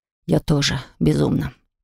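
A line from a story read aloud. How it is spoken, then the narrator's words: Hoarse voice. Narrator (Russian): проговорил хриплым голосом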